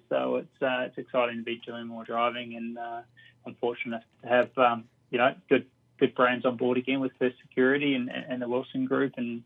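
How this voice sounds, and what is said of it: New Zealand accent. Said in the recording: “you've got a bit of an accent there. You're from Palmerston North”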